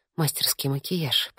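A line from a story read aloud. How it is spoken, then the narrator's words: Murmur. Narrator (Russian): пробормотала я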